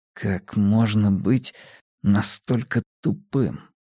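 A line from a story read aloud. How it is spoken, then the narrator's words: Barely audible mutter. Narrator (Russian): пробормотал Энди так тихо, что Честер едва сумел его расслышать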